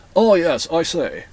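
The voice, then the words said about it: Erudite English accent. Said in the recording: “A very erudite English accent”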